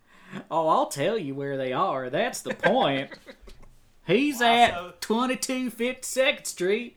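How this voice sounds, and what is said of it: Put-on Southern accent, Joker voice. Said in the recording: “Joker auditions in that new Southern accent you've invented”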